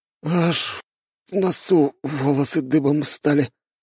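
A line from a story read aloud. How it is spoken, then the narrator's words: Groan. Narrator (Russian): простонал тот, который раньше стонал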